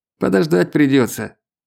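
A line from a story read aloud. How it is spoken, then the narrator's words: Grumbled. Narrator (Russian): проворчал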